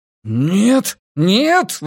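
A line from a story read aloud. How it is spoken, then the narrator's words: Exclamation. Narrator (Russian): воскликнул он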